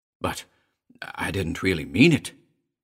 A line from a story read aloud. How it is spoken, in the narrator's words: Elliot choked